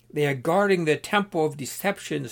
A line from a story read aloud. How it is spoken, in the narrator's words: screeched the other